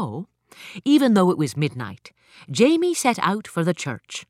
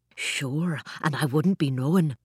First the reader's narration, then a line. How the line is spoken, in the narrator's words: Jamie whispered